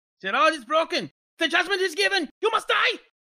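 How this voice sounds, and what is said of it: Put-on German accent. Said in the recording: “Could you do that in a German accent?”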